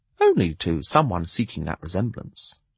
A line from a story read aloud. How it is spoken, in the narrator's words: the fool replied